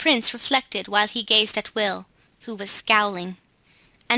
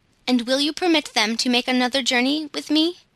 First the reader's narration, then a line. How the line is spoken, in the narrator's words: asked Claus eagerly